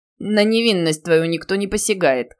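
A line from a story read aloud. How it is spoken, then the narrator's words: Short laugh. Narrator (Russian): хохотнул Бероев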